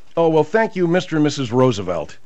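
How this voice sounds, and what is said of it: Sarcastic tone. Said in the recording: “your sarcasm really... ... so I'm being sarcastic.”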